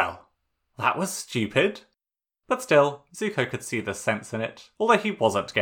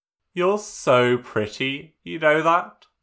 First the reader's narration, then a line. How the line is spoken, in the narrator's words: Zuko said